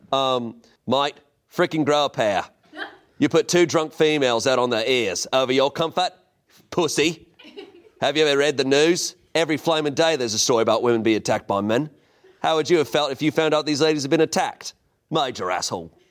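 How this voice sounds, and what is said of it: Put-on Australian accent. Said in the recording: “I want to hear that from like a ... Australian accent. ... So much better.”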